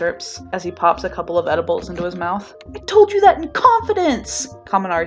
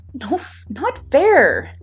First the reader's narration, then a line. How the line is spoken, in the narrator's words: Kirishima whines